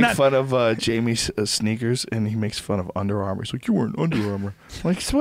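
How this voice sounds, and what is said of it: Usual voice. Nothing is said of it.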